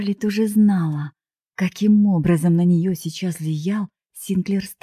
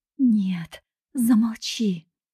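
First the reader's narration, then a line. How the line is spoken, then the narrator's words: Silent inner plea, young woman. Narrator (Russian): взмолилась про себя девушка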